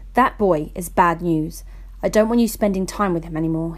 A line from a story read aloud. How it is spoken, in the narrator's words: said, glaring at me sternly, his eyes burning with an all too familiar rage